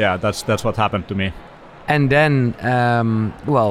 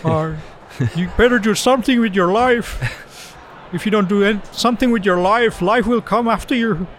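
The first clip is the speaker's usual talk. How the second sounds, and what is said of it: Imitates another person's voice. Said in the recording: “like Jordan Peterson would say ... Was that good imitation? ... Yeah, pretty good actually.”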